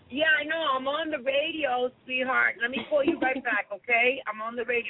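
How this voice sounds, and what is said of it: New York accent. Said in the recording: “The voice. Yeah, yeah. Hey, Vero, don't you love that New York accent”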